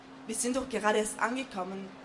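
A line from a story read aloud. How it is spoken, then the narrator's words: Plain. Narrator (German): sagte Juha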